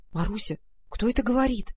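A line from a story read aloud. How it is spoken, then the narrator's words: Frightened whisper. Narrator (Russian): в страхе прошептала она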